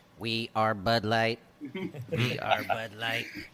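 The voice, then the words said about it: Robotic Borg-style voice. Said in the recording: “in my best Borg voice. Borg voice”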